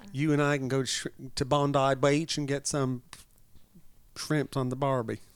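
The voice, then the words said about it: Put-on Australian accent. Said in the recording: “I'd rather have an Aussie accent. ... Aussie would be, good on you, mate.”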